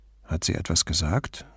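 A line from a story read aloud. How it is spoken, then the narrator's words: Quiet. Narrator (German): fragte Brunetti leise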